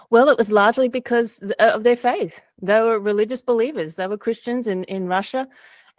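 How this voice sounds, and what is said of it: Australian accent. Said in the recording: “Australia. You might be able to tell from my accent.”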